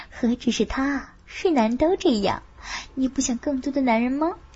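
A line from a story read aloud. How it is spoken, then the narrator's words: Whisper. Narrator (Chinese): 凤芝也悄声说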